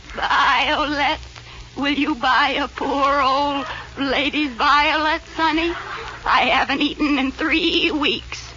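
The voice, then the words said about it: Bleating old lady voice. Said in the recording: “you sound like a goat.”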